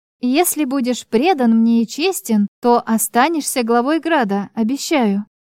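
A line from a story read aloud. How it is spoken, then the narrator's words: Plain. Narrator (Russian): ответила я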